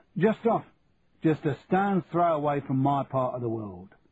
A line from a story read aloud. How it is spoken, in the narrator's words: said, in a thick Cockney accent